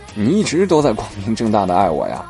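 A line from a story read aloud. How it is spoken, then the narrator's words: Laughing, then calm. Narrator (Chinese): 我这才笑出来，淡淡的接着说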